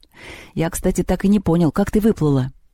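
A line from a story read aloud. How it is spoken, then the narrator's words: Plain. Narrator (Russian): сказал Антоха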